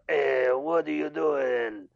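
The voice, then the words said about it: Angry Italian-accented cartoon alien voice. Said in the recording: “a blatant impersonation of Watto ... sound like an angry Italian man”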